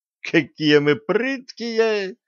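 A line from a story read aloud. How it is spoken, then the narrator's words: Young woman guffawing. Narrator (Russian): расхохоталась девица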